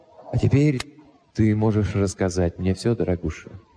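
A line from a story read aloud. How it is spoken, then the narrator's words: Soft and gentle. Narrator (Russian): мягко добавил я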